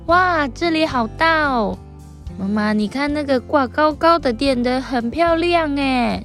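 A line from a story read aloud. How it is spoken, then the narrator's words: Excited, loud. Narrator (Chinese): 胖胖很兴奋的大声说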